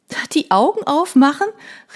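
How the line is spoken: Calling out. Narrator (German): rief

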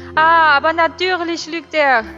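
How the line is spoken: Calling out. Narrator (German): rief Madame Maxime

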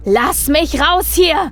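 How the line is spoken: Roaring. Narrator (German): brüllte er

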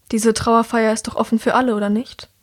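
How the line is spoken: Sighing. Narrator (German): seufzt

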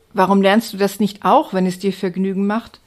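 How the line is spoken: Plain. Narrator (German): fragte

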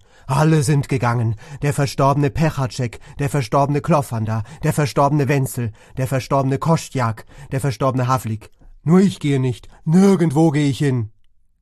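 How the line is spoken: Wild scream. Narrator (German): schrie

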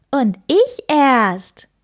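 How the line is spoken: Call. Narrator (German): ruft das kleine Blaue

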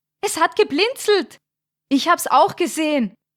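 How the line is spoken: Called out. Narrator (German): rief Thomas

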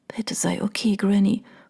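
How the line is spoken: Whispered plea. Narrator (German): flüsterte sie

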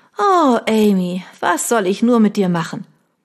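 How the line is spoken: Hearty laughter. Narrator (German): mit einem herzhaften Lachen

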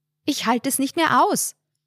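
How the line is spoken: Calling over the phone. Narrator (German): rief diese am anderen Ende der Leitung

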